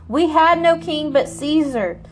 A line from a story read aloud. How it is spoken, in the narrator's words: the leading priests shouted back